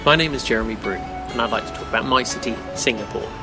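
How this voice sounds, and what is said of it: British accent. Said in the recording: “the guy doing it does have a British accent”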